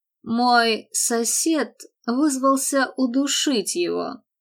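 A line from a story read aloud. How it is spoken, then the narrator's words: Sighed. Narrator (Russian): вздохнул Мэтт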